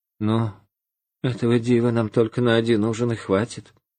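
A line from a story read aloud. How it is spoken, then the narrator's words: Sighing speech. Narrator (Russian): жена вздохнула и говорит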